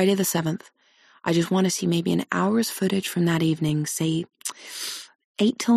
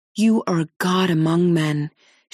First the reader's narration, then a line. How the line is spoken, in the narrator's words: she exclaims